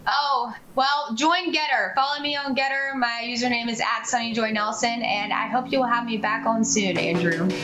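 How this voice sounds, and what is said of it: Carolina Southern American accent. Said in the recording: “still with a Carolina accent.”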